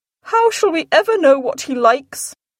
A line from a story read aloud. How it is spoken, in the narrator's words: cried Mrs